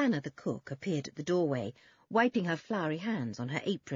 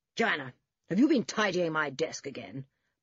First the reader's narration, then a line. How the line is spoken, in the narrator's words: barked George's father